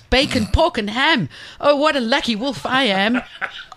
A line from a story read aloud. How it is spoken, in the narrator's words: he shouted